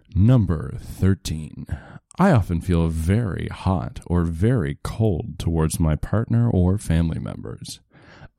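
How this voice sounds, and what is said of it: Soft ASMR-style reading voice. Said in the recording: “You got the voice down pat. ... You really do have a good ASMR voice.”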